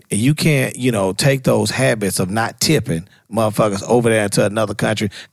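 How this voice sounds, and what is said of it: American country accent. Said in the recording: “it's my accent. It's the country accent.”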